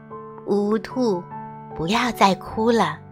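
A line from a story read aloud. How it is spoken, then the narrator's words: Gentle voice. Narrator (Chinese): 一个温柔的声音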